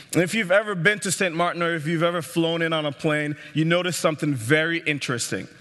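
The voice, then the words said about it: Caribbean accent. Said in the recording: “I grew up in the Caribbean, as you can tell by my accent.”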